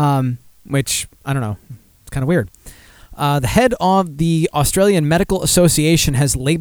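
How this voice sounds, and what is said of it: Usual voice. Nothing is said of it.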